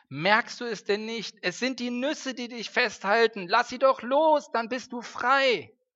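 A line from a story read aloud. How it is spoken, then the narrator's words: Calling out again. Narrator (German): Wieder rief Twieger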